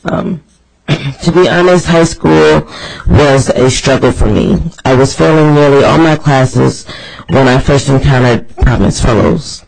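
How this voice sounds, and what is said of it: Sick, strained voice. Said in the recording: “excuse my voice. I'm coming down with something.”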